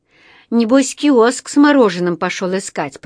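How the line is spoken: Grumbling. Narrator (Russian): проворчала она

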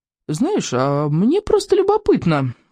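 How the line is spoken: Very casual tone. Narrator (Russian): очень небрежным тоном заговорил рыбьенок

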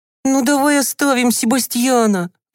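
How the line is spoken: Pleading. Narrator (Russian): взмолился Тим

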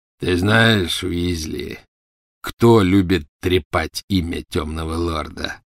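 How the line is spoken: Growled. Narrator (Russian): прорычал Фенрир

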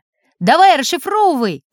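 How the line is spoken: Shouted. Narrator (Russian): крикнул Сережка

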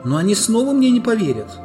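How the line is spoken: Desperate exclamation. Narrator (Russian): в отчаянии воскликнула Люси

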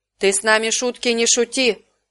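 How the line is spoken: Menacing bark. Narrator (Russian): грозно рявкнул он

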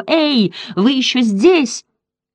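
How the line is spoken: Shouted through cupped hands. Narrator (Russian): закричал, сложив ладони рупором

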